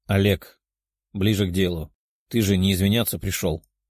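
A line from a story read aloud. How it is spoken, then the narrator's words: Calm. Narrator (Russian): спокойно сказал Тео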